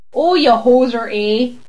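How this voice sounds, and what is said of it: Exaggerated stereotypical Canadian accent. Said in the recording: “Do you think everyone who does a Canadian accent, it's always this?”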